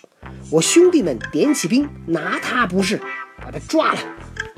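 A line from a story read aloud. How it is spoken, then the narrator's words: Furious. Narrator (Chinese): 敖钦闻言大怒道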